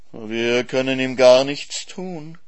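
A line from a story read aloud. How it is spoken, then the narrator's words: Purring fox. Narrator (German): schnurrte der Fuchs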